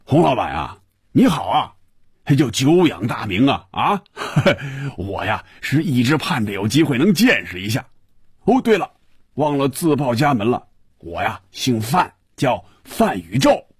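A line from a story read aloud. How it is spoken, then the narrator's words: Muffled laughing voice over phone. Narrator (Chinese): 电话里……一串笑声，然后是有些瓮声瓮气的声音说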